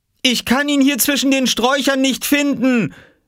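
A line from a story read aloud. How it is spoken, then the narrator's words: Mother calling from outside. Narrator (German): rief Mama von draußen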